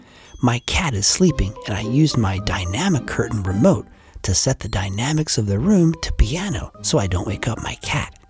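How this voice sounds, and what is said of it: Whispering, soft voice. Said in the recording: “So that's why we're whispering ... We can't use anything but a soft voice”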